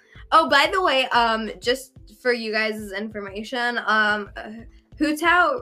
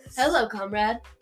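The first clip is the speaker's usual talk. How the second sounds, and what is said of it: Weird put-on character voice. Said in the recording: “Now I'm in that weird Tartaglia voice.”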